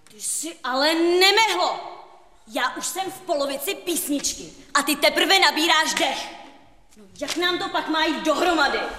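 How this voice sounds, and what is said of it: Shouting. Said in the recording (Czech): “Nekřič na mě!”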